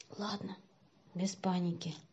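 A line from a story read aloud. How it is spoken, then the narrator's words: Hoarse voice. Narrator (Russian): сипло сказал Сеня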